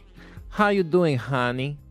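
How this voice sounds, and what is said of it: Put-on Russian female voice. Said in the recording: “I'd be Russian, wouldn't I? I'm allowed to be Russian, aren't I?”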